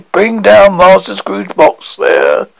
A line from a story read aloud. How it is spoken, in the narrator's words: A terrible voice cried